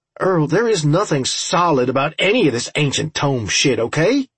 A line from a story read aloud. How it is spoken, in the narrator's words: I snapped angrily